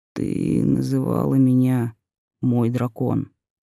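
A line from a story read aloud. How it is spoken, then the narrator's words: Barely audible. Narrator (Russian): произнёс он едва слышно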